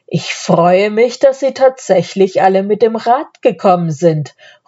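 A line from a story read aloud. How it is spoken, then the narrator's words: Count calling out. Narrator (German): ruft der Graf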